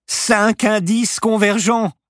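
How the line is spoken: Shouted. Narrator (French): cria Paloma

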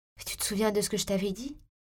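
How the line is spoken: Timid question. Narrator (French): demandai-je timidement

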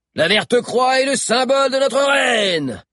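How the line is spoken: Thundering. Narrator (French): tonna Bill

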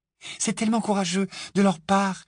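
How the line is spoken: Admiring sigh. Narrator (French): soupira Hermione avec admiration

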